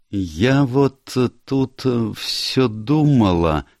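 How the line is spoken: Slow, deliberate. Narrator (Russian): медленно произнесла Фрэнсис

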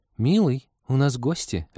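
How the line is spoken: Worried flustered housewife tone. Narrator (Russian): отозвался Искин озабоченным тоном жены домохозяйки, лихорадочно вспоминающей, что в доме есть из еды

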